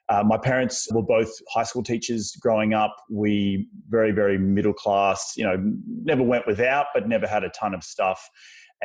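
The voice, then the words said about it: Strong Australian accent. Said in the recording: “I'm originally from Australia, still have a very strong Australian accent.”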